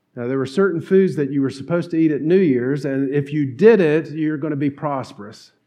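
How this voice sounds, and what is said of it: Southern North Carolina twang. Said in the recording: “I grew up in North Carolina. If you've never noticed that twang, it's there.”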